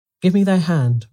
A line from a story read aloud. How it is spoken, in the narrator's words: Orsino cried in gladness